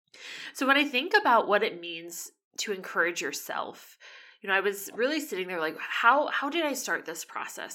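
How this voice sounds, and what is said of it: Strained, failing voice. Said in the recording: “my voice is going ... my voice sounds a little bit different today, or you struggle to hear”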